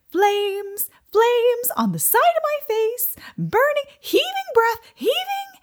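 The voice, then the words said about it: Bad sing-songy imitation of another voice. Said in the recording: “her sing-songy ... my really bad impression of it”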